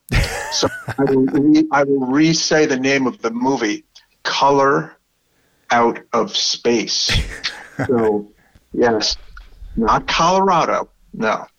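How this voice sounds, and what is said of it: Strong Brooklyn accent. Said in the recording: “my terrible Brooklyn accent”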